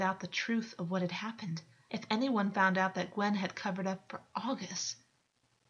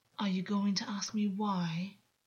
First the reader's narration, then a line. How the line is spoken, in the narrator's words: August purred a dangerous, jagged light in his eyes